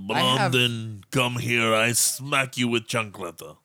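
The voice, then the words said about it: Put-on Russian accent. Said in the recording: “When did she become Russian? ... Russian with Hispanic idioms.”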